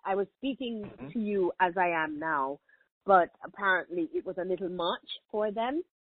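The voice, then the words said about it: Thick Jamaican accent. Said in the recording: “my accent. They thought my accent was too thick and that the people in the United States would not appreciate or be able to understand what I was saying”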